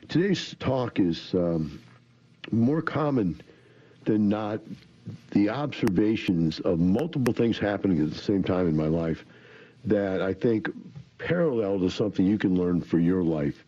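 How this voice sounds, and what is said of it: Congested voice from a cold. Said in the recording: “I have a little bit of a cold today. Allergies of some kind's really messing with me, so I got a little bit of a runny nose. And I'm sure maybe cough here and there”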